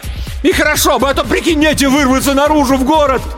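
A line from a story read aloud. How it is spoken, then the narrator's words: Loud full-lunged shout. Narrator (Russian): Илья набрал побольше воздуха и закричал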